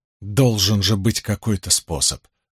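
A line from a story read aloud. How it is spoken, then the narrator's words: Two voices muttering. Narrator (Russian): бормотала Эгвин, и Илэйн вторила ей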